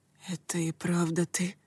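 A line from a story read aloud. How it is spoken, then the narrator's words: Whisper. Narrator (Russian): прошептал он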